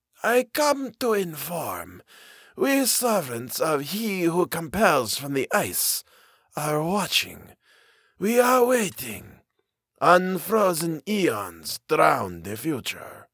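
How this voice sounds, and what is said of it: Thin raspy voice, foreign accent. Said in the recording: “Her voice was a thin rasp. ... I could not place her accent, ... not one heard often in the valleys of Appalachia, or for that matter, in North America.”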